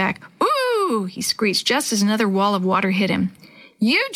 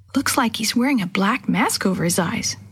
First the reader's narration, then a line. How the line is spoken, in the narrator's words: Sammy whispered back